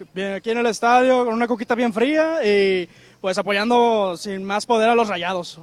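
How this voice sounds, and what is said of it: Put-on radio announcer voice. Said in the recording (Spanish): “voz de locutor ... en voz de locutor”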